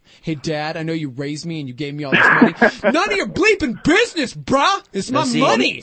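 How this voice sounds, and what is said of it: Angry, aggressive mocking voice. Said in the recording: “Mine just seems less angry. You sound like a jerk. ... you're roiding out again”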